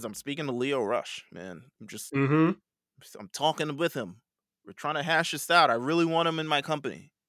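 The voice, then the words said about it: Imitates another person's voice. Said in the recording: “Why'd you give him that voice?”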